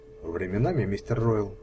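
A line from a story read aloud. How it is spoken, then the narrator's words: Soft. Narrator (Russian): мягко произнесла Пэт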